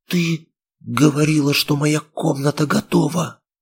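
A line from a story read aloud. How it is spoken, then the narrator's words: Hoarse breathy. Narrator (Russian): Хрипло выдохнула я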